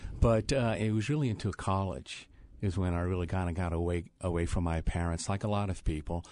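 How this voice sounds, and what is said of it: New Orleans accent. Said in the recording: “This accent that you hear is from New Orleans”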